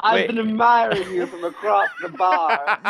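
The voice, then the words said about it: Put-on accent. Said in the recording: “It's a very good accent.”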